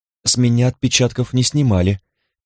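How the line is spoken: Almost disappointed tone. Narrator (Russian): произнес Асад почти разочарованным тоном

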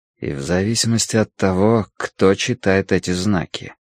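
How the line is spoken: Quiet. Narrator (Russian): тихо произнес Тай

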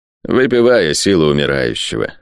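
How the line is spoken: Dry. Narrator (Russian): сухо сказал лорд

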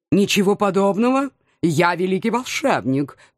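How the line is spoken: Contemptuous snort. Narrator (Russian): презрительно фыркнул наш нахал

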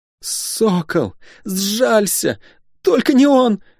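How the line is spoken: Moaning plea. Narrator (Russian): простонала Алинари

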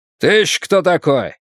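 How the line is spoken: Man barking. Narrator (Russian): рявкнул мужчина

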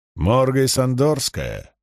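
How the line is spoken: Firm, resonant voice. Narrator (Russian): спросил он твердым и звучным голосом

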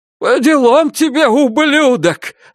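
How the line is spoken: Father shouting. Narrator (Russian): закричал отец Ребекки Клайн

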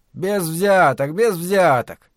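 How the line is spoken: Hoarse weak attempted shout. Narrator (Russian): попытался крикнуть Ангустино так, чтобы его услышали чужеземцы, но голос у него был хриплый и слабый

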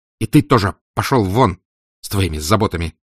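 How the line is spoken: Snapping retort. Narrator (Russian): огрызнулся Раскольников

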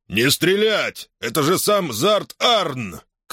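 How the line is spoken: Officer shouting. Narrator (Russian): крикнул офицер

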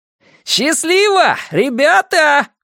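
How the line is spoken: Yelling after someone. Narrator (Russian): вопит вслед маг

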